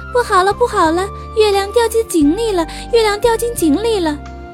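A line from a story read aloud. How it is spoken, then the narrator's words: Frightened cry. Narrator (Chinese): 大猴子也吓得叫起来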